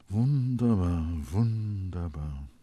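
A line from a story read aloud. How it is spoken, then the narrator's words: Murmured. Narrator (German): murmelte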